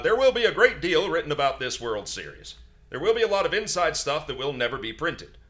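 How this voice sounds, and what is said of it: Reads in a transatlantic accent. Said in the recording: “you sound like the chick from the Hudsucker proxy ... I'm going to read everything in a transatlantic accent.”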